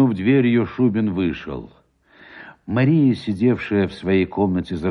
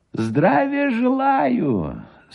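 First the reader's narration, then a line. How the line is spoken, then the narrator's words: Thin high voice, stout man. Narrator (Russian): сказал Гусев тонким и высоким голосом, составлявшим резкую противоположность с его толстым брюхом и низким ростом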